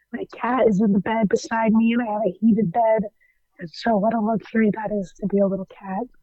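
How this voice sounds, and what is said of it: Sounds sick and unwell. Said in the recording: “I'm not doing so well today, as you can maybe hear in my voice”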